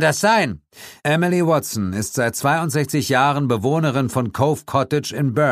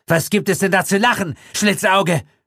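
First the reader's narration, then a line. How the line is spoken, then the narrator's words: Nervous hissing snap. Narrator (German): fauchte Gilditch ihn an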